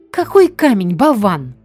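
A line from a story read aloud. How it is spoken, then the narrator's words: Woman's scream. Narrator (Russian): тут же завопила его жена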